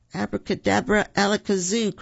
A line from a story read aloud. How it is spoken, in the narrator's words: cried Roo